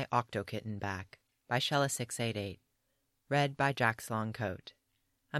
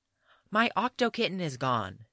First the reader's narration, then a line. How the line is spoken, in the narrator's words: Tim shouted in alarm